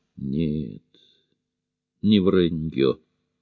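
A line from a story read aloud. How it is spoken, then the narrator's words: Calm interruption. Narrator (Russian): спокойно перебил Лэнди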